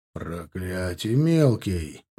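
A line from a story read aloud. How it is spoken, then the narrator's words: Growling. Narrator (Russian): прорычал Урский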